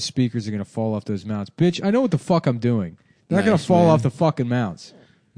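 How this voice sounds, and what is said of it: Yelling angrily. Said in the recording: “you're yelling”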